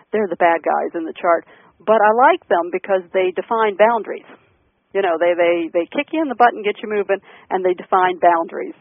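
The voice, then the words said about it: Southern Maryland accent. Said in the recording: “my Southern Maryland accent coming out”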